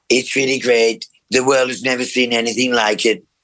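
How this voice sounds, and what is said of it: Donald Trump impression. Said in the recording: “his Donald Trump impersonation ... I've got to work on my Donald Trump”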